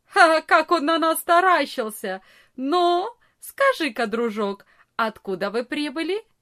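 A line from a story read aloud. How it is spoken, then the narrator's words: Biggest boy laughing loudly. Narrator (Russian): самый большой из ребят громко не засмеялся и не сказал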